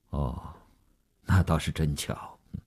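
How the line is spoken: Flat, indifferent. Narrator (Chinese): 吴长天淡淡地说

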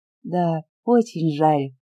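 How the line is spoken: Sighing. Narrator (Russian): вздохнула Оля

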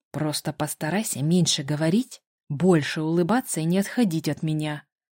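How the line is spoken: Through gritted teeth. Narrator (Russian): процедил Кристиан, скрипнув зубами

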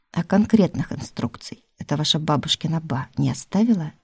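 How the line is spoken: Plain. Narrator (Russian): спросил Милецкий

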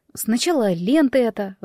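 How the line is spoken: Sighing. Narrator (Russian): вздохнула я

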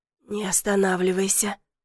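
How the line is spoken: Hoarse with passion. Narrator (Russian): попросила она хриплым от страсти голосом

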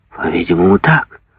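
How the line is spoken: Stunned mumbling. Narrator (Russian): бормотал Куактье, все еще ошеломленный резким, необъяснимым поворотом в образе мыслей короля

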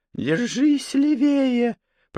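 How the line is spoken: Dry, creaky voice. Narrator (Russian): Проскрипела она пересохшим горлом

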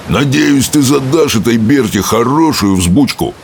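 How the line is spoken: Roaring fat-bellied man. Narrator (Russian): проревел толстопуз пивной живот

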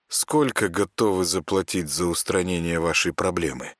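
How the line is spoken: Businesslike question. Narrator (Russian): деловым тоном спросил Саня

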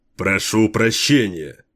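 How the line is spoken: Threatening tone. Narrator (Russian): угрожающим тоном произнес Кейн

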